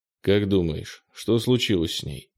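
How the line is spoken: Grim question. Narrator (Russian): мрачно спросил Кенни

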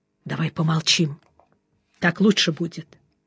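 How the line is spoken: Whisper. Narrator (Russian): Жеглов шепнул

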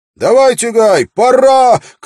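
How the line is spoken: Shouting. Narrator (Russian): крикнул Уилл

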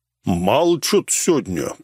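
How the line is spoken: Deep bass voice. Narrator (Russian): пробасил Дизель

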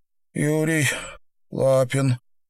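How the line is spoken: Strained exhale. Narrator (Russian): тот с трудом выдохнул

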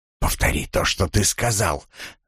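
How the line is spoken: Hissing. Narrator (Russian): зашипел он

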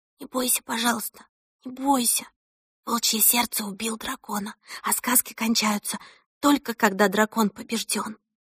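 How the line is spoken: Whisper in ear. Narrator (Russian): Она шептала ему на ухо

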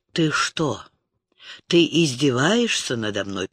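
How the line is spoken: Angry hiss. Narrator (Russian): прошипел он

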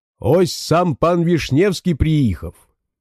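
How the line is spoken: Loud shouting. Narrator (Russian): жокей опять в голос кричал

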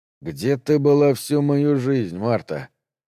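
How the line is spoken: Groaning. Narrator (Russian): Дэн застонал

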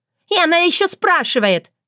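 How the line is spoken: Younger sister shrieking. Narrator (Russian): взвизгнула младшая сестра

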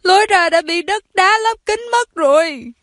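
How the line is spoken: Shouting while sobbing. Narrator (Vietnamese): Có người vừa la to vừa nức nở khóc

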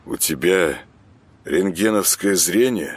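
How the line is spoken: Gloomy question. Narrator (Russian): мрачно спросил Саня

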